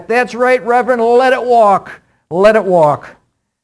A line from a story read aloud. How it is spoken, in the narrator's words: The congregation, hanging on every word, shouted back